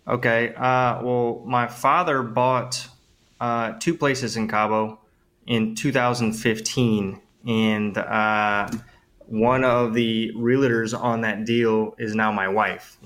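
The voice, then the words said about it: New Orleans accent. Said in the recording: “I'm originally from New Orleans, Louisiana. ... I think the accent gave it away”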